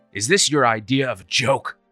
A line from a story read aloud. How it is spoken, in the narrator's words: He snapped